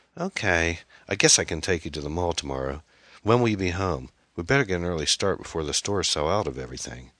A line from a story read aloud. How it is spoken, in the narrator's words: sighed to herself and said